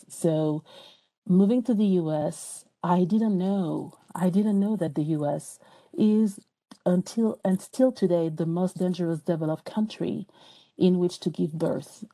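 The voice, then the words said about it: French accent. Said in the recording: “even though I still have an accent, I'm from France”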